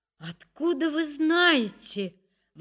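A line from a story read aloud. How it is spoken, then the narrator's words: Astonished exclamation. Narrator (Russian): воскликнула я пораженно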